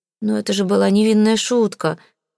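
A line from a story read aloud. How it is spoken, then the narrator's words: Moaning. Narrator (Russian): простонал кузен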